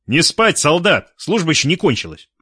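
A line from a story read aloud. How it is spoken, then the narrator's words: Loud command. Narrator (Russian): с серьезным лицом громко скомандовал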